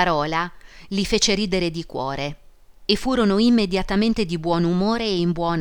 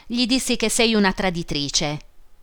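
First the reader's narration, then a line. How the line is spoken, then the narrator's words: Laughing. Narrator (Italian): disse egli ridendo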